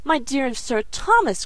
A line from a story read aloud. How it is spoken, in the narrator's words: cried Mrs